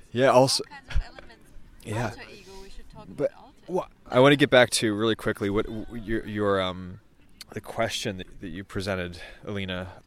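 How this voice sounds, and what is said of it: Congested, stuffy-nosed voice. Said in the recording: “I have bad allergies... my nose is extra stuffy right now... my voice is going to become like this”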